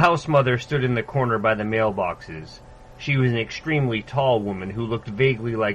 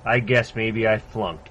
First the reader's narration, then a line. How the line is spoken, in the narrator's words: Garish said